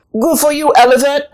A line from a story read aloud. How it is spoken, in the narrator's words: Anansi called out from the bananas